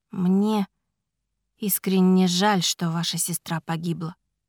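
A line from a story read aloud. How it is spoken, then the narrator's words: Quiet. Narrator (Russian): тихо сказала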